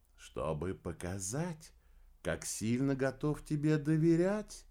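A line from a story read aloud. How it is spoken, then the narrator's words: Gentle reply. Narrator (Russian): мягко ответил Обедолов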